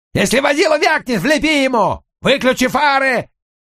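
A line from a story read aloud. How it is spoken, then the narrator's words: Shouted. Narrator (Russian): крикнул мне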